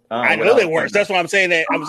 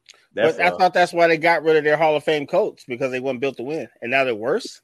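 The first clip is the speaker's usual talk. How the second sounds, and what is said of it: Sarcastic tone. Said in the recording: “I'm saying that really sarcastically.”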